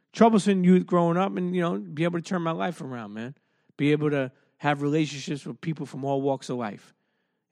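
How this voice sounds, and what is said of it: Deep New York accent. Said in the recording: “I'm not just an Italian kid from Brooklyn ... I'm not somebody with just a deep New York accent.”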